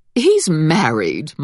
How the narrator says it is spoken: Mama said in a dismissive tone

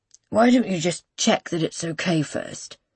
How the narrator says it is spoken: he mumbles

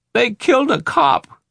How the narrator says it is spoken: an old man in a gray sweatsuit was screaming, his eyes bulging, waving his arms like a madman

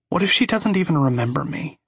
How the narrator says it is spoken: she asks

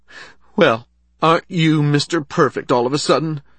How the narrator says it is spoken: she asked, her voice quivering

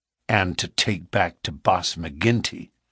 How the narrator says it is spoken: said Morris bitterly

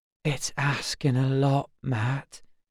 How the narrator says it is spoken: he whispered

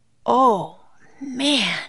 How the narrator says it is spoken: he breathed

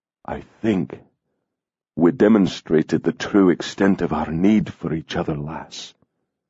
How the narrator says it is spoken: he said softly

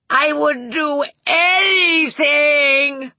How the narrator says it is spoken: Bing screamed

